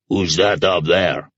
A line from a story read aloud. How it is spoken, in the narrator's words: Hunter suddenly boomed